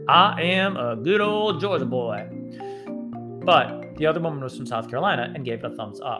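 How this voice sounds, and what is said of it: Exaggerated Southern Georgia accent. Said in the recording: “a Southern accent ... my best Georgia accent ... It actually sounds more like foghorn leghorn.”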